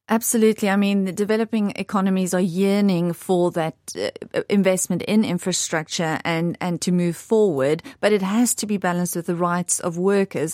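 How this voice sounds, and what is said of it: South African accent. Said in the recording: “People may have guessed from your accent that you have the South African connection”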